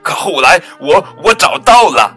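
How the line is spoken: Loud. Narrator (Chinese): 鳄鱼大声说

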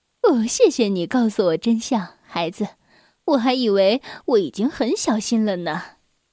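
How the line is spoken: Smiling. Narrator (Chinese): 那个买水果的顾客 朝他微笑着说

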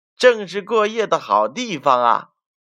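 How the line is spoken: Cackling cry. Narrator (Chinese): 麻辣先生嘎嘎叫道

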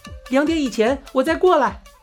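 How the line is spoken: Shouting over loud noise. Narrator (Chinese): 装扮队伍的移动音响车正要经过，夏美只得大声喊道

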